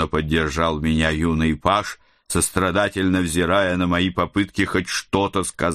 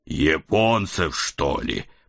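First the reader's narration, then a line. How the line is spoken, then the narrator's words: Groaning behind hands. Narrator (Russian): простонал я, закрывая лицо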